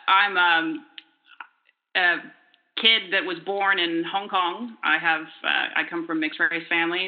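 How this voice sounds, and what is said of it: Non-local accent. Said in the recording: “You can probably tell by my accent that I'm not local.”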